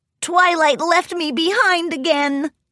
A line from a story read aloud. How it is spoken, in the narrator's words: Spike wailed